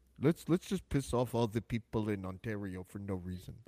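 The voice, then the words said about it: Imitates another person's voice. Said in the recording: “That's my Elon Musk impersonation. I don't know if it's good”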